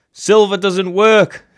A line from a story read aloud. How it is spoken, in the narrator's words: shouted, her voice edged with panic